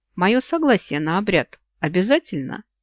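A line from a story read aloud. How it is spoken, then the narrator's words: Calm question. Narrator (Russian): спросила спокойно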